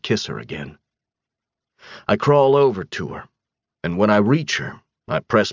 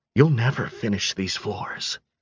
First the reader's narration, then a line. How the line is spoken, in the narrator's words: she whispers